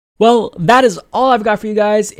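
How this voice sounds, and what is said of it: Strained, fading voice. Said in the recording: “If you can't tell, I am losing my voice”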